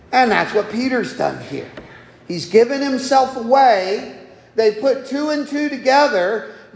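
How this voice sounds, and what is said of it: Southern US accent. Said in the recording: “The moment I open my mouth, they go, "Nah, he's not even from South Jersey. He's certainly not from way up yonder, New York. He's got to be somewhere from way down there." ... accent”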